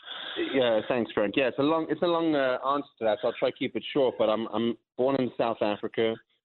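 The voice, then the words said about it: Non-New York, non-American accent. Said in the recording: “listeners can hear in your accent that you don't necessarily have a New York accent like I do, or even a Philadelphia accent”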